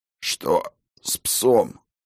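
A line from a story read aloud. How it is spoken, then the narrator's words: Hoarse rasp. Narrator (Russian): прохрипел Хаген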